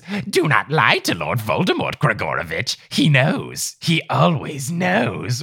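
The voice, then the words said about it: Good Voldemort impression. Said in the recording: “how good your Voldemort impression is”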